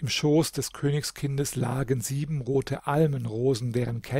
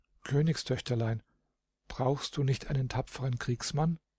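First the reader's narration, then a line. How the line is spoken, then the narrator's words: Very quietly. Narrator (German): sagte ganz leise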